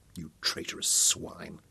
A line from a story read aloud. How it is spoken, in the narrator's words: Dorian muttered, with loathing